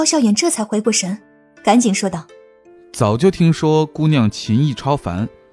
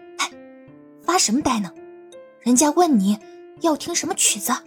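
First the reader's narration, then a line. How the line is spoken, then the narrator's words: Quiet. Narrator (Chinese): 云溪小声的说道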